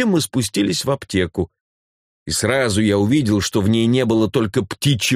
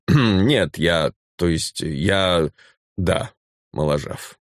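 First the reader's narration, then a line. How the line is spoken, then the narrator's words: Dry grumble through teeth. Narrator (Russian): проворчал сквозь зубы сухо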